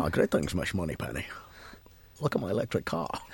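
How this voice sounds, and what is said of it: James Bond impression. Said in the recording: “your impression? ... Of Sean Connery? ... Of just any James Bond in general. ... that's much better than mine”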